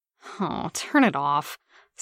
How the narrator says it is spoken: Steve moaned

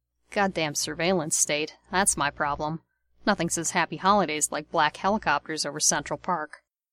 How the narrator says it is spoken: he added, muttering

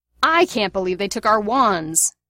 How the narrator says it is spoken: James bellowed, raising his voice as loudly as it'd go

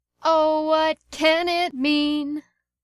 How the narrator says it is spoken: made themselves hoarse by shouting along with it

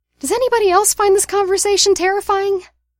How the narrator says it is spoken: Remus piped up

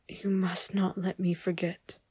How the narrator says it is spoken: whispers

